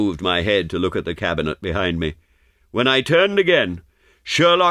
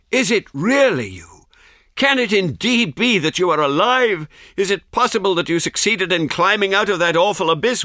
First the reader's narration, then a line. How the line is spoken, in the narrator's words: cried